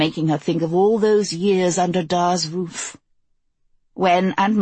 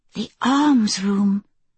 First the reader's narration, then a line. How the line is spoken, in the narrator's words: she breathed, her eyes wide